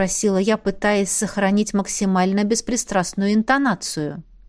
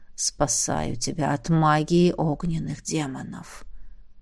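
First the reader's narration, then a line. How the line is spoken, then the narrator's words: Dragon's weary whisper. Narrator (Russian): устало прошептал дракон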